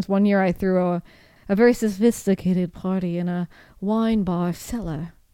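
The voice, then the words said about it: Put-on unidentified accent. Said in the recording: “I don't know what accent that was.”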